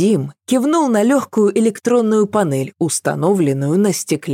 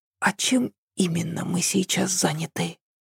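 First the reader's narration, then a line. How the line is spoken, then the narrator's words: Whispered question. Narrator (Russian): Шепотом спросила Ася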